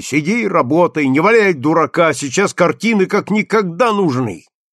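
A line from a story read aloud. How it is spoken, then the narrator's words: Sharp scolding shout. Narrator (Russian): на него прикрикнули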